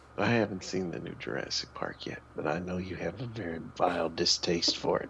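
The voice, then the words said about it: Sick-sounding, rough voice. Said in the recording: “apologize for my voice today, fans. I guess I'm coming off a cold”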